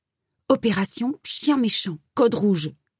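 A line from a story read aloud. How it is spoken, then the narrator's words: Hissed, wide-eyed. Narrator (French): siffla-t-elle avec de grands yeux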